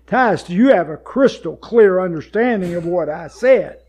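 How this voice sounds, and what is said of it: Raised, louder voice. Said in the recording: “raised my voice.”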